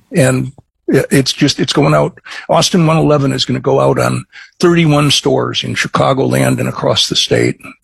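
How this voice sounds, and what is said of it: Midwestern Chicago accent. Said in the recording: “I'm a Chicagoan, as you might be able to guess from my Midwestern accent.”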